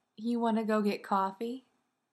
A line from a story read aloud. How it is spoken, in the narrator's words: Sam says, in an amused tone